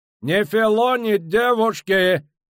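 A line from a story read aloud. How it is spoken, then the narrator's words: Shouted. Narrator (Russian): крикнул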